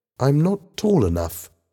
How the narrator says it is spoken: said timidly

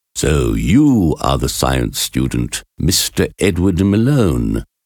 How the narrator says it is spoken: asked in a deep voice

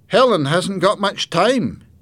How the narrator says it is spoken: said

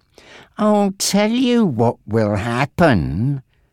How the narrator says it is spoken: Frankie continued slowly

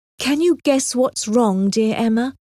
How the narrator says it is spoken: asked Anne in a trembling voice

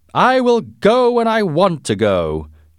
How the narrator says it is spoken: shouted the angry visitor

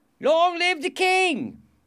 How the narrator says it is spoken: somebody shouted

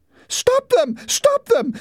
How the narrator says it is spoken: screamed Margot

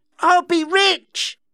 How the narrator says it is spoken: shouted

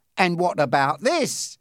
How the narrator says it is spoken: He exclaimed

